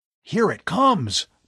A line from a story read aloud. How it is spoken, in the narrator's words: Bud yelled suddenly